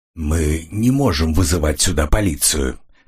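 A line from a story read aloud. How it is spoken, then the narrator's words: Hoarse voice. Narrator (Russian): хриплым голосом произнес он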